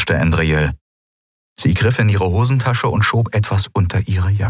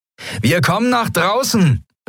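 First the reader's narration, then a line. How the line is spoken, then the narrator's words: Called out. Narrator (German): rief Sephiron den Yadi-Piraten zu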